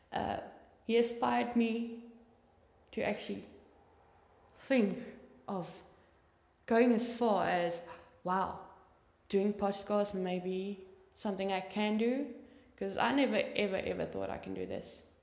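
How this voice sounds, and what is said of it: Speaker's own accent. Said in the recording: “Not with my voice or accent, obviously.”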